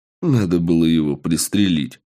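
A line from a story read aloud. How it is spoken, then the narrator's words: Snort. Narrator (Russian): хмыкнул я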